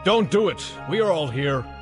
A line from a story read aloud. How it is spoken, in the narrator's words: Paul shouted to him